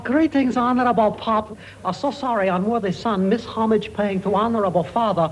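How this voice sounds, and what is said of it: Put-on foreign stage accent. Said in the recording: “what sort of an accent is that supposed to be?... touring in Tea House of the August Moon”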